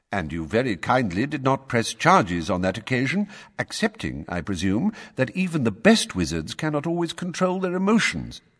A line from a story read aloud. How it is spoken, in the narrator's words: said Dumbledore calmly